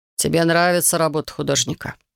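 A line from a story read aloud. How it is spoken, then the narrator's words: Quiet question. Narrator (Russian): тихо спросил Хикири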